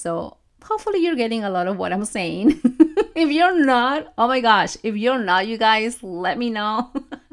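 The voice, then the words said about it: Speaks with a noticeable accent. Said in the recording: “you know my accent”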